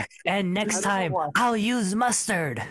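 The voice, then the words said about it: Imitates a movie character's voice. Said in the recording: “That was a good impression.”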